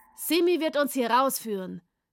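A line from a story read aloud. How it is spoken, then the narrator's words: Shouted. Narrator (German): rief Layo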